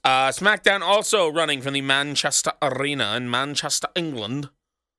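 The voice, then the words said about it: Badly done put-on accent. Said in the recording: “That's a horrible accent”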